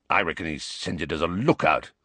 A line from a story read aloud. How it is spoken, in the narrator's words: growled Moody